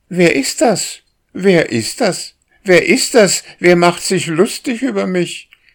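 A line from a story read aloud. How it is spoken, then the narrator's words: Bird asking. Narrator (German): fragte die Drossel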